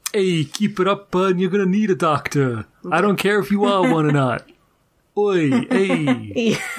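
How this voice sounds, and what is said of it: Put-on New York accent. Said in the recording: “the New York accent ... the kind that we do here on this show”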